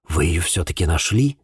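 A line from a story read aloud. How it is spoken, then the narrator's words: Breathed out. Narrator (Russian): выдохнул я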